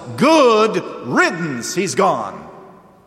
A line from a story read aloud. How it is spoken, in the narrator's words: everybody who is party to that scheme shouts